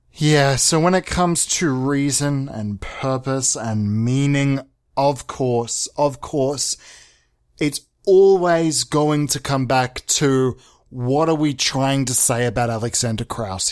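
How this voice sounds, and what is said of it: Mock-serious voice. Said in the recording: “put on my serious voice”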